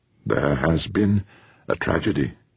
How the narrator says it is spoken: he began hesitantly

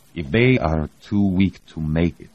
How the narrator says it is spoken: Ivchenko said slowly

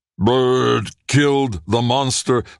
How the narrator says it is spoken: Lung shouted as they approached

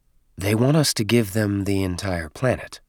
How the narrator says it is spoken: said in a whisper

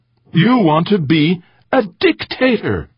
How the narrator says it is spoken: Eberly exclaimed, pretending shock

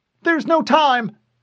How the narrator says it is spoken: Cortana said urgently

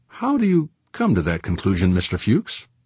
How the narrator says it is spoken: Coolly, Fervort asked

